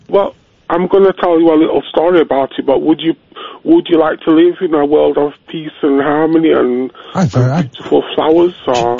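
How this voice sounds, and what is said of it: Congested voice from a cold. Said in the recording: “I've got a bad cold”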